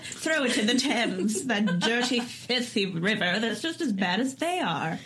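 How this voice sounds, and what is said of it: Mock French accent, slightly British. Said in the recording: “pretending to be a French person mocking English, my accent became slightly British.”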